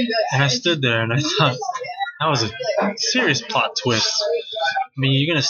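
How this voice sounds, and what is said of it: Usual voice. Nothing is said of it.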